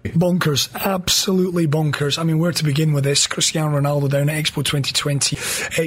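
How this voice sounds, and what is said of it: Hoarse, nearly lost voice. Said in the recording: “My voice is almost gone. And I'm absolutely knackered.”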